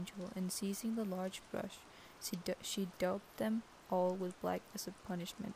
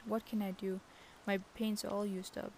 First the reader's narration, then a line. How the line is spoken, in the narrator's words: sighed